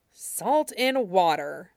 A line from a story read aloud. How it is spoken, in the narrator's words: Toph muttered